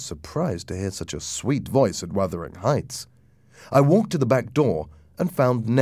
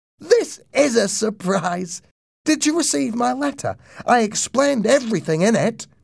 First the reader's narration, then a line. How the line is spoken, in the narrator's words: cried